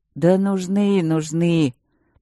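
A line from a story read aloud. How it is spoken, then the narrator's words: Wistful drawl. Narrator (Russian): протянул он тоскливо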